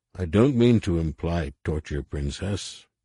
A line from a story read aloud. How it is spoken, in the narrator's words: Harris said